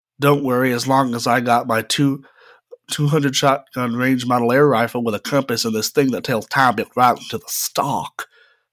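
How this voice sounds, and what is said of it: Put-on Southern cowboy accent. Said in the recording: “he had a southern accent, because he's a cowboy”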